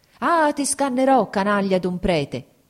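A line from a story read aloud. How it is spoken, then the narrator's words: Shouting continuously. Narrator (Italian): gridava di continuo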